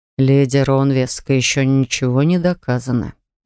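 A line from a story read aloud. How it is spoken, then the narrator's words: Gentle remark. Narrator (Russian): мягко заметил отец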